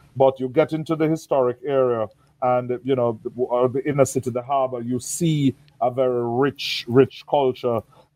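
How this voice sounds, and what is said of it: Caribbean accent. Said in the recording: “By my accent, you can tell I'm from the Caribbean.”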